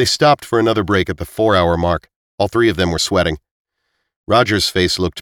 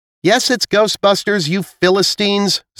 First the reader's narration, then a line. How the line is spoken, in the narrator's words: Zila shouted around the corner